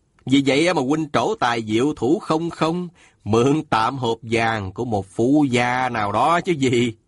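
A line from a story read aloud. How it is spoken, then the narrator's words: Smiling question. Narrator (Vietnamese): Sa Thiên Quảng mỉm cười hỏi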